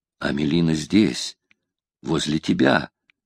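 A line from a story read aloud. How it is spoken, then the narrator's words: Agitated whisper. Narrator (Russian): прошептал ему на ухо взволнованный голос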